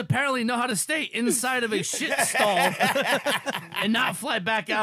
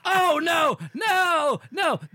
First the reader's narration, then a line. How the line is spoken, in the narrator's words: he starts yelling and screaming